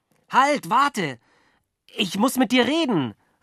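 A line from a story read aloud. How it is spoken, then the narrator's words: Calling out. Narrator (German): rief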